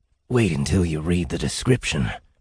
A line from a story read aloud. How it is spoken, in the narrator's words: Mordecai muttered